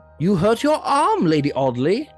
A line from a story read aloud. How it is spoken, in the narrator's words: exclaimed